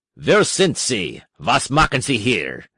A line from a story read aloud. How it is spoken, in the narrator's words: He said in a harsh voice